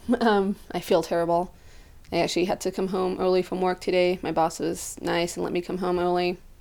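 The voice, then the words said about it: Sick, congested voice. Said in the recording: “I'm sick right now ... I just woke up this morning with a sniffle and a headache. So I apologize if I sound terrible.”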